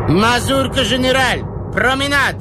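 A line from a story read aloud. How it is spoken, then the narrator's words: Shouting. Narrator (Russian): кричал Бабетинский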